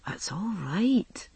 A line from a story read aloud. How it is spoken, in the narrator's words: he whispered into my hair